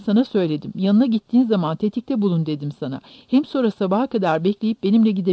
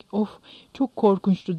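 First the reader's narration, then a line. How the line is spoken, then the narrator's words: Moaning. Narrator (Turkish): diye inledi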